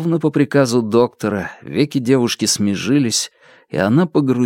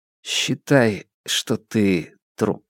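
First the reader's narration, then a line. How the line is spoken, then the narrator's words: Calm. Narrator (Russian): спокойно произнес Хуа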